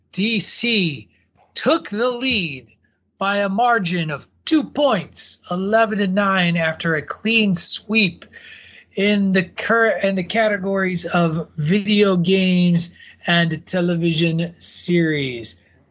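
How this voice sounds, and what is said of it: Put-on sports announcer voice. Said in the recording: “Was that your Pat Sutherland ... That's just me doing a voice ... We couldn't get Howard Cosell”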